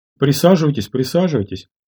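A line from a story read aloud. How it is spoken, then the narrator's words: Hurried, high-pitched. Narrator (Russian): сказал он торопливо, высоким голосом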